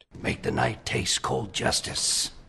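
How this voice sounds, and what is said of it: Batman impression. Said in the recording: “Matt Perry's attempt at a Batman impersonation”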